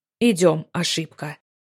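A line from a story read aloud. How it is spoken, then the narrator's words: Growled into ear. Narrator (Russian): прорычал Валиан мне на ухо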